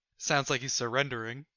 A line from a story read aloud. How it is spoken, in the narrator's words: I whisper to Leon